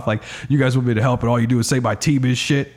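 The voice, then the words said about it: Imitates another person's voice. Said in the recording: “That's a pretty good impression. That's a pretty good impression.”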